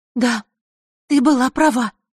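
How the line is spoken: Excited. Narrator (Russian): взволнованно произнесла она

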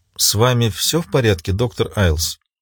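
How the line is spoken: Quiet question. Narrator (Russian): тихо спросила Луиза

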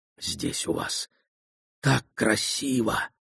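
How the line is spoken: Whisper. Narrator (Russian): прошептал Маман Генденг

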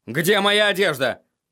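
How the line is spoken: Barked. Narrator (Russian): рявкнул он Шае

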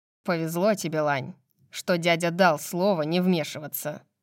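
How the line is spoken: Growling. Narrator (Russian): прорычал Дюнкин

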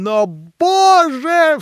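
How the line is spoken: Sudden cry. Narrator (Russian): вскрикнула вдруг Катерина Ивановна

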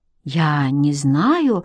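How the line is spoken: Uncertain reply. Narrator (Russian): ответила она неуверенно

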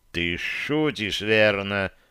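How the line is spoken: Hiss. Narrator (Russian): прошипел я

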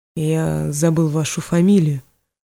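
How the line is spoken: Muttering. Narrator (Russian): пробормотал он

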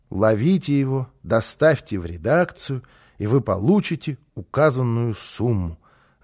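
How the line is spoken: Reading aloud, then sighing. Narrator (Russian): закончил он чтение и вздохнул

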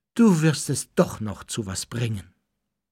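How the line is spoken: Sighing. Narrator (German): seufzte sie

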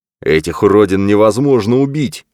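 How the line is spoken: Furious bark. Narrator (Russian): яростно рявкнул Брэд

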